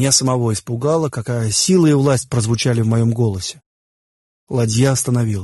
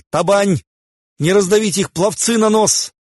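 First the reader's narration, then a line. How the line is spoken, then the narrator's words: Desperate yell. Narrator (Russian): Я сдержал вопль отчаяния, застрявший у меня в горле, и заорал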